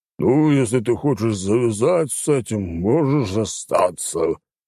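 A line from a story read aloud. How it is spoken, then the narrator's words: Growled. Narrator (Russian): прорычал Горбак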